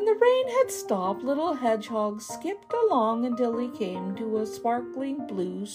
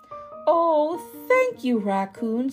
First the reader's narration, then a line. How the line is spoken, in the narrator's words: said Little Hedgehog happily